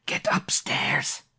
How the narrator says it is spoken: he whispered

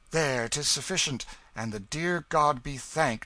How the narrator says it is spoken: exclaimed the ragged claimant in a mighty excitement

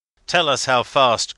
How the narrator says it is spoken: cried he

